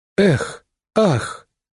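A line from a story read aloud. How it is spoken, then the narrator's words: Crowd's disappointed exhale. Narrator (Russian): разочарованно выдохнул народ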